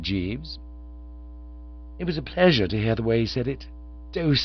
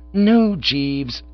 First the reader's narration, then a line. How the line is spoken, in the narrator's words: I said firmly